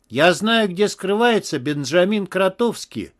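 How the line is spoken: Desperate exclamation. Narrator (Russian): отчаянно воскликнула трубка

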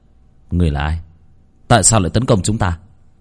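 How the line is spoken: Muttering. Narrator (Vietnamese): Bác Cổ lẩm bẩm

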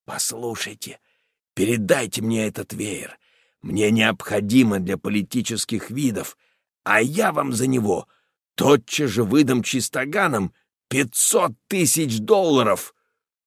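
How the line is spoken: Quiet confidential man. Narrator (Russian): посланник американский страшный богач-миллионер говорит тихонько

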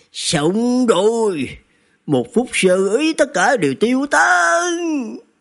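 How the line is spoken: Hissed through gritted teeth. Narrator (Vietnamese): Địch Trung Minh nghiến răng nghiến lợi rít lên

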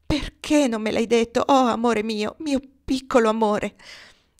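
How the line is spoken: Laugh turning into sob. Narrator (Italian): Scoppiò in una risatina che si trasformò in un singhiozzo

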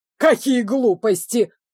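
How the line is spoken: Angry roar. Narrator (Russian): взревел разгневанный мэр

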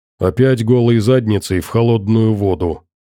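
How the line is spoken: Grumbled. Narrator (Russian): пробурчал Макс

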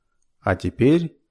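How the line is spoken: Solemn announcement. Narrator (Russian): торжественно объявил мистер Саттертвейт

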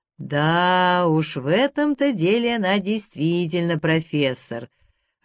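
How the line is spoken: Booming drone. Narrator (Russian): прогудел Матвей Петрович

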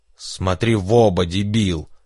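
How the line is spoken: Yelling. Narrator (Russian): заорал Энрике

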